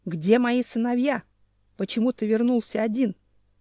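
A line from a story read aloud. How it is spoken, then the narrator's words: Growled. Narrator (Russian): зарычал Ненчич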